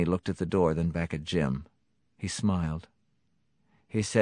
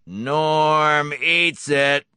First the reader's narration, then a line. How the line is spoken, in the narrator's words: David Garcia suddenly yelled hoarsely